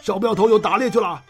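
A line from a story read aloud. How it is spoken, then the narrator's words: Men shouting in unison. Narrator (Chinese): 八名汉子中有三个齐声叫了起来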